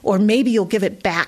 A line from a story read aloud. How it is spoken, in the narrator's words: snapped